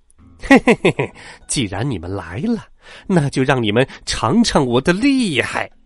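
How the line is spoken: Loud laughing over screen. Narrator (Chinese): 猴子的身影出现在航空母舰主控室的电脑屏幕上，他大笑着说道

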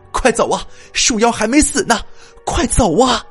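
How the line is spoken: Loud shout in cave. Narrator (Chinese): 洞窟当中响起了丁晴的大喊

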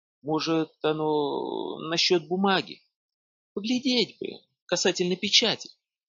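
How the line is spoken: Timid speech. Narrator (Russian): староста робко сказал

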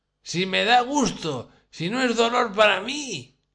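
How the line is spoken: Shouting. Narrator (Spanish): gritaba mientras Catalina Ivanovna le zarandeaba con fuerza la cabeza

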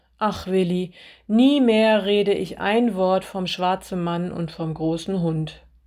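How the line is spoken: Groaning. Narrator (German): stöhnte sie

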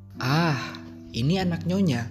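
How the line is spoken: Exclaiming. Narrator (Indonesian): serunya

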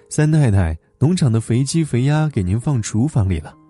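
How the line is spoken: Smiling rehearsed greeting. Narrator (Chinese): 丁主任对着镜子微笑的练习请安

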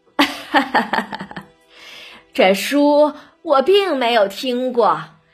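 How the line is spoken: Laughing. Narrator (Chinese): 贾母啊笑着

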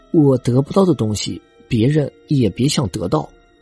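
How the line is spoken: Cold. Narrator (Chinese): 冷冷的说

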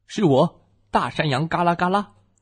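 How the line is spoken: Troll roaring. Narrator (Chinese): 山怪吼叫道

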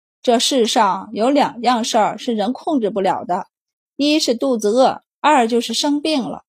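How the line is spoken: Flat, indifferent. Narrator (Chinese): 郑大掌柜被打断了思绪，淡淡的道

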